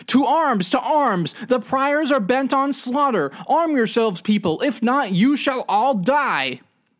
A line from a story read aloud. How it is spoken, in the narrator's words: A lowly clockkeeper of the priory, the one who keeps time in the big clock, overheard the plotting and ran out into the piazza screaming